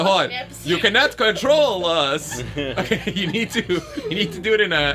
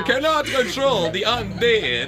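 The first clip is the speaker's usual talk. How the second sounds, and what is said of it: Monster voice, Dracula. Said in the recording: “in a monster voice. I choose Dracula.”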